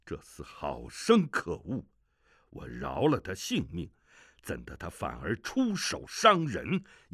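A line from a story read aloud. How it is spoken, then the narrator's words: Furious. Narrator (Chinese): 萧峰 不禁大怒，说道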